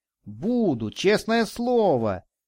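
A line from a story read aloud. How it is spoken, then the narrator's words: Boy exclaiming joyfully. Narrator (Russian): радостно воскликнул мальчик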